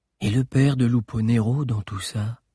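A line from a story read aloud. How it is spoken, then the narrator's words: Plain. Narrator (French): demanda Agnel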